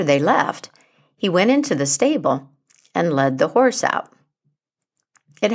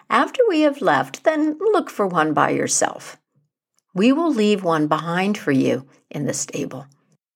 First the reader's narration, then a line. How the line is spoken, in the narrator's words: The others laughed and said